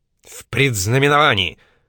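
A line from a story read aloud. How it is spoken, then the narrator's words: Sharp reply. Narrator (Russian): резко ответил Шелли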